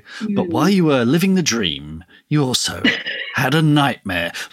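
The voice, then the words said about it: Radio DJ voice. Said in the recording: “DJ voice”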